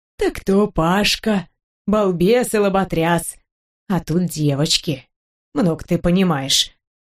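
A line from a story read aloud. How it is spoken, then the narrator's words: Stern, menacing. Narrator (Russian): говорит грозно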